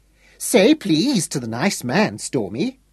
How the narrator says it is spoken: Irene used the patronising voice for instructing young children

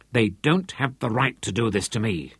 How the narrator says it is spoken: she said fiercely

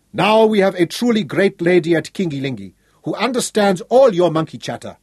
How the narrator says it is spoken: he told them sternly

